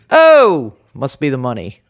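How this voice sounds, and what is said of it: Put-on New Jersey accent. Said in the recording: “Shall I do a Jersey version?”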